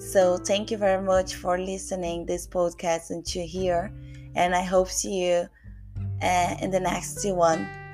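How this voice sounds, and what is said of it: Non-native English accent. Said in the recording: “something that I said you might not understand about uh, because of my accent”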